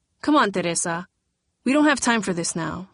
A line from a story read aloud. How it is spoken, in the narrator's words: she said quickly